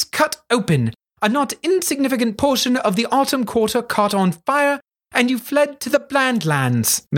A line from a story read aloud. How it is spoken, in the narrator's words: Miss McCutcheon said impatiently